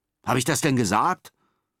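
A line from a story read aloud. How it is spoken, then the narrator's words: Snapping back. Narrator (German): schnauzt Enno zurück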